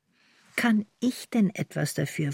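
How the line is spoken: Plain. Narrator (German): fragte sie

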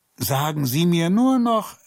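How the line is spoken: Calling after someone. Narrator (German): rief er ihr hinterher

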